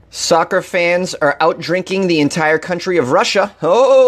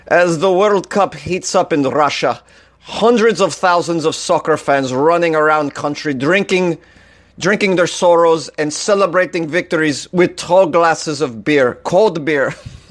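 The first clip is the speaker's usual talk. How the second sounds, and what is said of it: Bad put-on Russian accent. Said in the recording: “read this whole article with a Russian accent ... This is a bad accent.”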